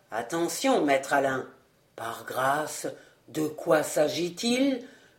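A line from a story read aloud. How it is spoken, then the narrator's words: Trembling murmur. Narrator (French): murmura celui-ci qui trembla de confiance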